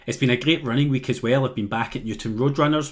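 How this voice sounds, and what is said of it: Posh Glasgow accent. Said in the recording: “this posh accent ... what a posh person from Glasgow sounds like”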